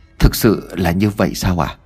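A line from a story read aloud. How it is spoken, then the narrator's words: Shaken, trembling. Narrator (Vietnamese): Ông Vọng tay run rẩy, ông Vọng liền nói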